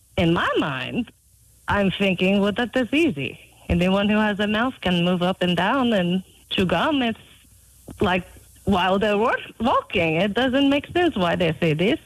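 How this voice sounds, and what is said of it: Non-native English accent. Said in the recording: “I'm hearing an accent”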